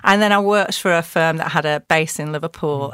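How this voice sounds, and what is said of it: Scouse accent. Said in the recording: “why have you got a Scouse accent? ... where did that Scouse accent come from?”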